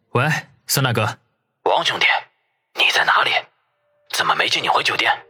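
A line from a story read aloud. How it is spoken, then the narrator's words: Hushed, wary phone question. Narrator (Chinese): 孙卫良在电话里低声地问，似乎担心被人听到一样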